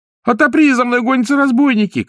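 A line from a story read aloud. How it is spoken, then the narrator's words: Shout. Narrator (Russian): крикнул ей Пиноккио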